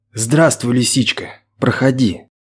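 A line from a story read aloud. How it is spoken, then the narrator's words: Quiet voice. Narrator (Russian): Вадим тихо произнес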